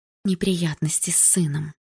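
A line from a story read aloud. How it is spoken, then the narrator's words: Whispered. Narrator (Russian): прошептала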